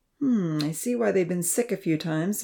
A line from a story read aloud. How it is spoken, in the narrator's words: the professor remarked quietly to Evan